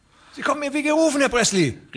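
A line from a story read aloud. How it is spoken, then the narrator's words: Called out. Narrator (German): rief der andere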